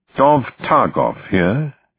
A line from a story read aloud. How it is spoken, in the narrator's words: said in a crisp Oxford accent